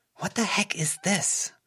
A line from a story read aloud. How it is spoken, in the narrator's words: Melissa hissed